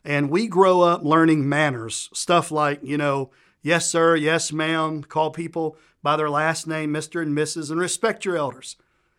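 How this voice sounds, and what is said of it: Southern US accent. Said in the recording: “I'm from Southern U.S. by my accent”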